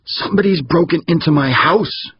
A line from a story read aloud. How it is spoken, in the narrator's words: screeched a voice in his head